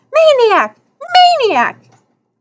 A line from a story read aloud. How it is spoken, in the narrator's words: Two familiar voices squealing